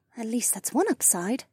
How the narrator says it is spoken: Becca muttered

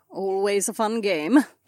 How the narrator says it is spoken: Kat chuckled

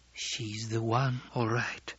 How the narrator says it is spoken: she muttered

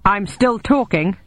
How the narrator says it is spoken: he snapped

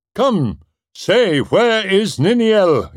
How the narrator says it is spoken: he cried

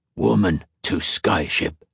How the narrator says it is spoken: Typhon grunted

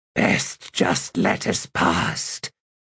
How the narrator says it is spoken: Gruntle said in a low, rasping voice

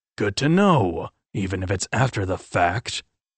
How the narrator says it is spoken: Irving grumbled

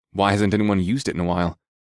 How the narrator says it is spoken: asked in a curious tone

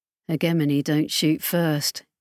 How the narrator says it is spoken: Kefi muttered

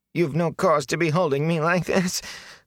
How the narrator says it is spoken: the filthy man whined

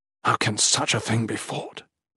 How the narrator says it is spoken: Geraint muttered under his breath

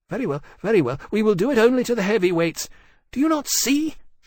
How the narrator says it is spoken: she snapped

